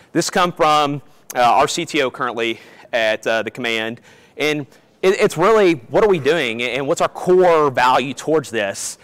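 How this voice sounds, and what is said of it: Kentucky Southern American accent. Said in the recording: “I'm originally from Kentucky, if you can't tell from my accent”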